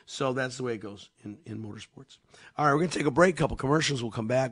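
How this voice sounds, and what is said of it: Slightly scratchy, hoarse voice. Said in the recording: “just sounds bad ... My voice is just a little scratchy.”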